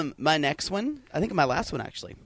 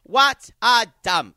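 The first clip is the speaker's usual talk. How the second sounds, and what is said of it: Bette Davis impression. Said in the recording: “good impression ... passable impression ... Jack Warner and Betty Davis”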